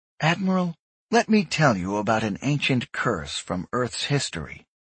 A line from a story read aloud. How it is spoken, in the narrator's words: she said softly